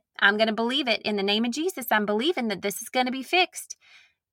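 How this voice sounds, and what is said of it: Southern American accent. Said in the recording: “Why do I go into a Southern accent when I pray?”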